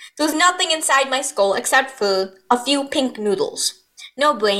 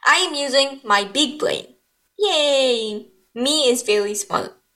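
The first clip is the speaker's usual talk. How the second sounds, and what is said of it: Sarcastic delivery. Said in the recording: “that was sarcastic”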